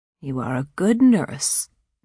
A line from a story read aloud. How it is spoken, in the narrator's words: she said, in an almost pleasant tone of voice